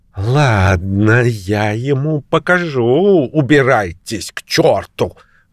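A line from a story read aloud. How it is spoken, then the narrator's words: Grumbling to herself. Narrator (Russian): ворчала про себя миссис Холл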